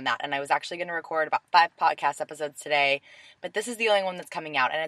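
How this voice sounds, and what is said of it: Hoarse, laryngitis-affected voice. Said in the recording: “I have a little bit of laryngitis happening right now”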